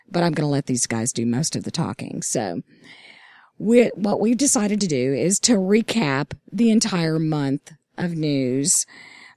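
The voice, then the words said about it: Scratchy, hoarse voice. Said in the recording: “I have lost my voice ... my scratchy voice”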